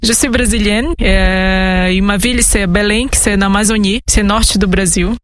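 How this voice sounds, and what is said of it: Strong Brazilian accent in French. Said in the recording (French): “vous avez un petit accent ... c'est un grand accent”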